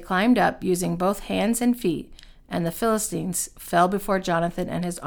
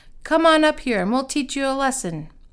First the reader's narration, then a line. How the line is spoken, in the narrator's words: the men from the outpost shouted to Jonathan